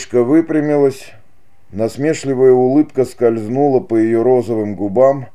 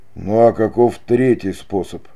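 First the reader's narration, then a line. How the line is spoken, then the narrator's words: Hopeless whisper. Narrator (Russian): безнадежно прошептал Дон Педро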